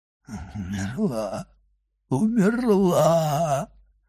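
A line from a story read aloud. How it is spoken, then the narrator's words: Anguished moaning. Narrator (Russian): стонал Вильфор в пароксизме душевной муки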